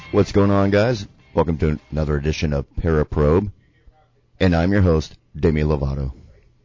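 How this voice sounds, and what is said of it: Exaggeratedly deep voice. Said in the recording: “You have quite a deep voice there”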